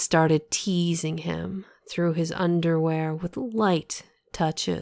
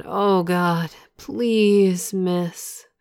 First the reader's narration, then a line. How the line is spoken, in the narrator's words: Moaning, he said